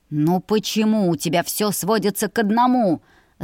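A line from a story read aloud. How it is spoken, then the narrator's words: Agitated growl. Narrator (Russian): Зарычал он, заметно психуя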